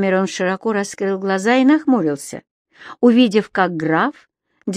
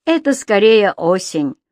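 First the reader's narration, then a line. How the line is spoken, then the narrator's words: Grumbling. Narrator (Russian): пробурчал Кэмерон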